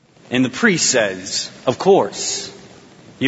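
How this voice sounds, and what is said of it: Usual voice. Nothing is said of it.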